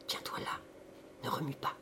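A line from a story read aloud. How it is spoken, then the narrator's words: Low calm voice. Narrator (French): lui dit d'une voix basse et calme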